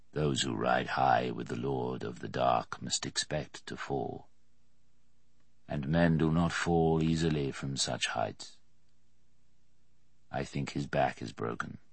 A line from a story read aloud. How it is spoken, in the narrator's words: Merriman said, his voice deep and expressionless